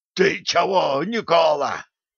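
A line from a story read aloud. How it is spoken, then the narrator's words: Hoarse reply. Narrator (Russian): прохрипел в ответ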